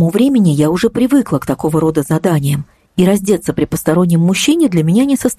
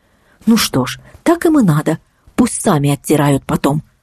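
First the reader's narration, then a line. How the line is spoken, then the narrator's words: Inner whisper. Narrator (Russian): прошептал где-то в глубине души голос разума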